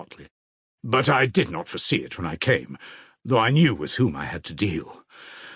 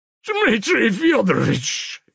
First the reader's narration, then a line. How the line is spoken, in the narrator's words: yelled Fyodor Pavlovitch suddenly in an unnatural voice